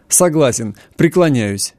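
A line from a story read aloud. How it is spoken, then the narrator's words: Cheerful laughter. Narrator (Russian): весело рассмеялся он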